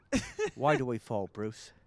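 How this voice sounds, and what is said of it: Imitates another person's voice. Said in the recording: “We'll teach you the Michael Caines... Teach you the Michael Caine... if they get the Michael Caine, then they're going to get The Prestige”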